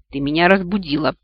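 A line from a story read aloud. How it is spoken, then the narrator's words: Creaky insolent voice. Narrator (Russian): проскрипел этот наглец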